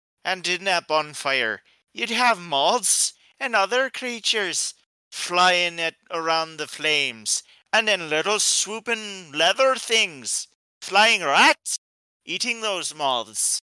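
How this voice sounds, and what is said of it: Poor put-on Irish accent. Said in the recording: “Sorry for my terrible Irish accent”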